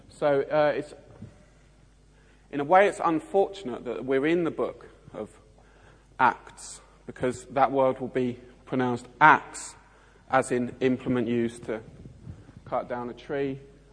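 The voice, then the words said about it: South East London accent. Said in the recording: “my South East London accent will brutalise in front of you”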